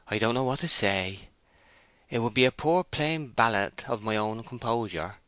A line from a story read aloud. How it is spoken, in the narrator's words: he replied in a yielding tone